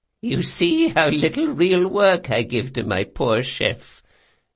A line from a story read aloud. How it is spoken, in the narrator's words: said Doña Vorcenza, cackling